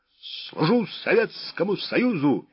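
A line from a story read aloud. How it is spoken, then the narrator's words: Barked command. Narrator (Russian): рявкнул генерал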